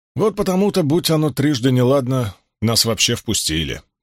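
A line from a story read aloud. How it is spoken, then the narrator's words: Gloomy reply. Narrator (Russian): мрачно отозвался Уно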